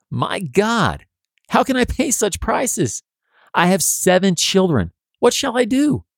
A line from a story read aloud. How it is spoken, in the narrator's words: When she sees that the store owner wants $70 for a barrel of flour, she exclaims